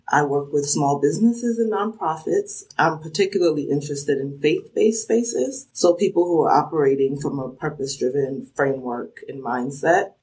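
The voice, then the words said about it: New Jersey accent. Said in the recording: “I grew up in New Jersey, so some people are quick to spot that accent because they say it sounds like the Sopranos.”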